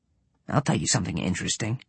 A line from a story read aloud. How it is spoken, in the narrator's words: Swan muttered to himself